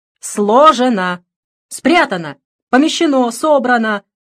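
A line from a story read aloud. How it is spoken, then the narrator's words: Multilingual yelling. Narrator (Russian): вопила я, пользуясь всеми доступными мне языками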